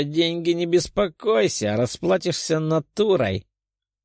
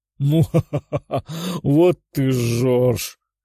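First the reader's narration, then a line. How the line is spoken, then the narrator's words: Minotaur girl guffawing. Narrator (Russian): расхохоталась девушка из народа минотавров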